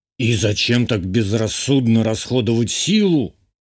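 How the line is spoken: Indignant question. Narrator (Russian): возмущенно спросил Журбер

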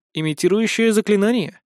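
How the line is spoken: Willing explanation. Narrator (Russian): охотно пояснил я

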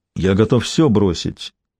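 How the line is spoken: Quiet. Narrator (Russian): негромко сказал Алан

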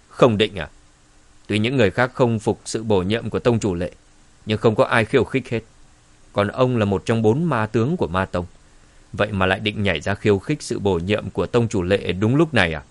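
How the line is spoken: Cold. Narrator (Vietnamese): Dương Trấn lạnh lùng nói

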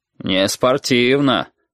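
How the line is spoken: Deep bass voice. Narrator (Russian): пробасил физрук

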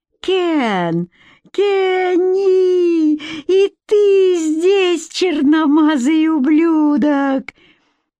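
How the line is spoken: Shrieking. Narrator (Russian): завизжала

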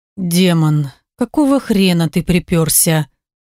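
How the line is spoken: Grumbling. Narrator (Russian): Проворчал мой вроде как

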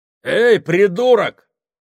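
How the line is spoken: Bark. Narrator (Russian): рявкнул Сакс на Кука

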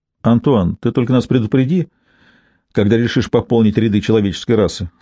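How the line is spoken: Plain. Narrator (Russian): сказала Лив Хьюла

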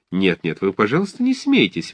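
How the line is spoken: Cheerful. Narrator (Russian): весело говорила Анна

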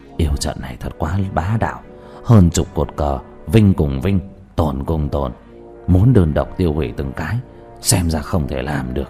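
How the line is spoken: Alarmed muttering. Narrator (Vietnamese): Thích Tín Vô sắc mặt biến đổi lẩm bẩm

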